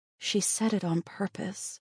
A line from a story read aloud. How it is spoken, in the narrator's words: Natalia whispered